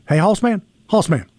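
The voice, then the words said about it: Imitates another person's voice. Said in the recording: “That's the only Archie Manning I can do is Hoss man. ... That's the only impersonation that you got.”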